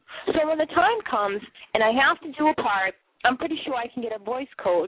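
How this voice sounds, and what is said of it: Boston accent. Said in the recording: “my Bostonian accent”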